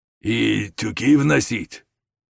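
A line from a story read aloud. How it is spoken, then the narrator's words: Hoarse bass question. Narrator (Russian): спросила вторая хриплым басом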